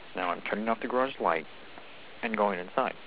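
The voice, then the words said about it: Soft, quiet voice. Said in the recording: “talk in a softer voice”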